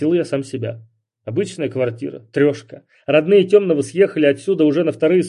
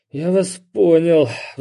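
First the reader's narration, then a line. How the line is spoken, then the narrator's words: Sighing. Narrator (Russian): вздохнул я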